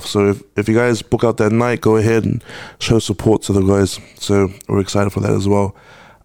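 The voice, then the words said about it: Smooth, attractive male speaking voice. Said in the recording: “his voice is so sexy ... It's like Giveon. Version of Giveon.”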